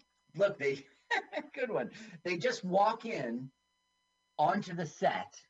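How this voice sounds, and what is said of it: Usual voice. Nothing is said of it.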